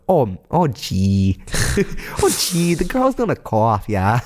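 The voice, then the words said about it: Put-on Upper Midwest accent. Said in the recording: “Wisconsin... Fargo, North Dakota... Wow, that was really good... I knew you could do that accent.”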